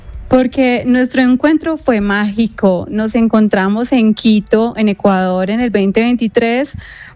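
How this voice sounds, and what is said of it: Colombian Spanish accent. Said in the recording (Spanish): “¿vos sos de Colombia? Digo, te regala un poco el acento, ¿no? ... Tiene acento cordobés.”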